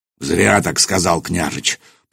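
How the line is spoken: Deep bass voice. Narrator (Russian): пробасил Нурман

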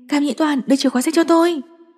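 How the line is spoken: Urgent call. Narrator (Vietnamese): cô kêu lên

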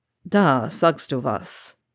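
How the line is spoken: Dry remark. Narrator (German): kommentierte er trocken

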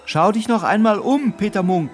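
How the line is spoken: Little man's call. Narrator (German): rief das Männlein

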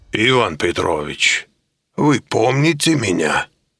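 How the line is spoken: Booming, strong Eastern accent. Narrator (Russian): прогромыхал он своим зычным голосом с сильным восточным акцентом

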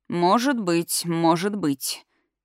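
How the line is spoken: Uncle's sudden gloomy reply. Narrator (Russian): неожиданно мрачно ответил дядя

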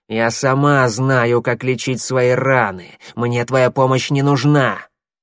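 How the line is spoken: Hissing. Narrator (Russian): Щербатая зашипела

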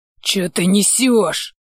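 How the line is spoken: Indignant hiss. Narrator (Russian): Возмущенно зашипел на него

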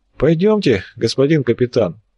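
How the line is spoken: Sigh, disdainful voice. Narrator (Russian): вздохнул обладатель брезгливого голоса

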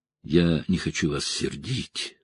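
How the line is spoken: Young woman's mumble. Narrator (Russian): пробормотала девушка

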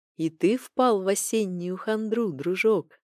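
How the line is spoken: Tender whisper. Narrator (Russian): ласково прошептала она

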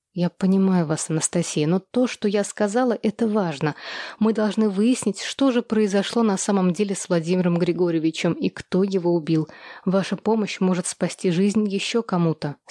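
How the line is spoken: Plain. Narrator (Russian): сказала я

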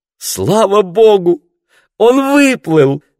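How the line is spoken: Joyful exclamation. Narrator (Russian): радостно воскликнула Марго

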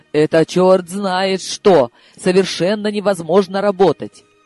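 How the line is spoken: Howling wail. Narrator (Russian): Коля взвыл

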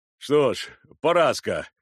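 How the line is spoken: Laughing. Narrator (Russian): сказал Черевик, смеясь

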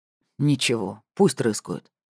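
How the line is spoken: Dragon's snort. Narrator (Russian): хмыкнул дракон

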